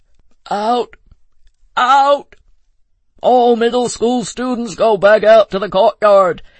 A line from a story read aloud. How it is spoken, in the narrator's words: bellowed a voice